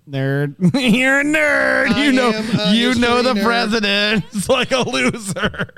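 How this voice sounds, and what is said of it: Mocking nerd character voice. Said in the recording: “did the nerd voice instead of the alien voice”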